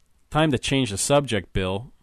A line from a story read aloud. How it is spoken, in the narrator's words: said Bob